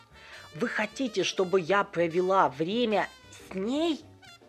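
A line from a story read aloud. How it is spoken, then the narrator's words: Exclaiming. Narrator (Russian): Воскликнула Октавия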